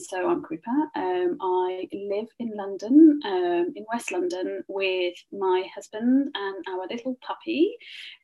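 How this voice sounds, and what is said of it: Slight Birmingham Midlands English accent. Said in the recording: “I'm originally not from London, so there is a slight accent there. I'm from the Midlands. ... I'm from Birmingham.”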